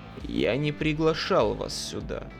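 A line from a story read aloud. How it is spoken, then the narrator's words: Low husky voice. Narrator (Russian): Дентон говорил низким, хрипловатым голосом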